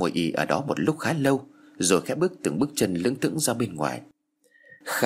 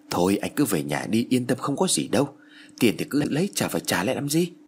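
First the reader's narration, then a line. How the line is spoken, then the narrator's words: Reassuring. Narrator (Vietnamese): Kha bèn khuyên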